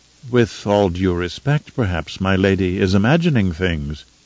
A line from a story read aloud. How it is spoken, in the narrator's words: said in his calmest tone